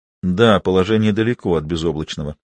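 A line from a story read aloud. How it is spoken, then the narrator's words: Quiet agreement. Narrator (Russian): тихо согласился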